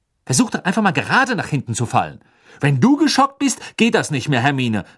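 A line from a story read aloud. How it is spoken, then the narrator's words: Angry. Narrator (German): sagte Ron wütend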